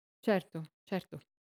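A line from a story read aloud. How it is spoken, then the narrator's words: Clerk stammering. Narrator (Italian): L'impiegato balbettò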